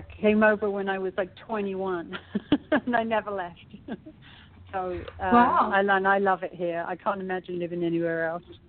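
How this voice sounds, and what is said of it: British accent. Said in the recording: “you have an accent, so you're not from L.A. ... She's a British in LA.”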